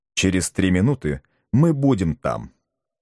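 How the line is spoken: Calm objection. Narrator (Russian): спокойно возразил ему президент Барбекен

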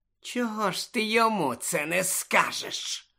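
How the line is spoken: Hissing. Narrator (Ukrainian): просичав Снейп

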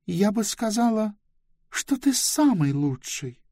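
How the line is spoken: Tender. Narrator (Russian): нежно произнесла Близ

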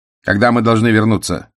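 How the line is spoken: Curt question. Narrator (Russian): отрывисто спросил рулевой

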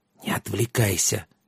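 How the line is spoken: Whisper in ear. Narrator (Russian): шепнула ему на ухо Аннет

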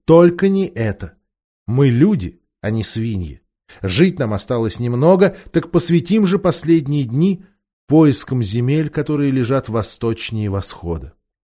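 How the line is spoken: Commanding exclamation. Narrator (Russian): третий, очень властный с виду, воскликнул

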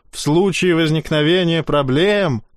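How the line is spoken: Shouting. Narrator (Russian): кричал Лепет

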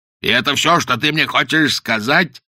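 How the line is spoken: Shouting. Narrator (Russian): закричал Каузак

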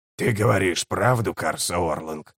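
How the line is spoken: Hoarse rasp. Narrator (Russian): прохрипел Киннигиг

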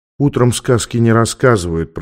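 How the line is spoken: Soft whisper. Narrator (Russian): прошептала она

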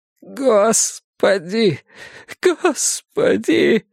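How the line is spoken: Sudden sob. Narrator (Russian): всхлипнул он вдруг, и его лицо задрожало

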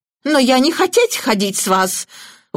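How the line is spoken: Terrified squeal. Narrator (Russian): в ужасе отпрянув, взвизгнула Митци

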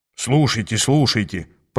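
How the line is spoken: Grumbled. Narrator (Russian): пробурчал Аас

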